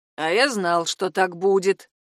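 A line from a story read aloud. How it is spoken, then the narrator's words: Grumbling. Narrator (Russian): ворчал Крестов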